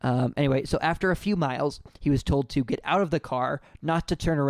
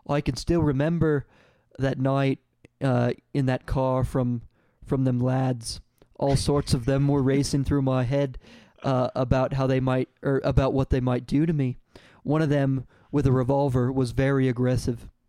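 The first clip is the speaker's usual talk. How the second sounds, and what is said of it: Weak put-on Irish accent. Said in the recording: “Is that supposed to be your Irish accent? ... It's not good. It's not good.”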